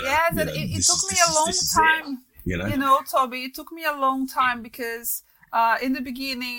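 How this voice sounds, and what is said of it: Brazilian-accented English. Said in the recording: “you can hear some weird accent from Brazil in a mix of stuff”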